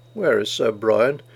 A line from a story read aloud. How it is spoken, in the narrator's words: growl, groan